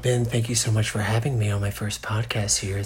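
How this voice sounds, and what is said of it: Put-on podcast voice. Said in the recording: “This is my podcast voice.”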